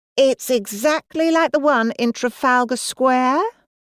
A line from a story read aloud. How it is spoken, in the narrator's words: she said in her posh voice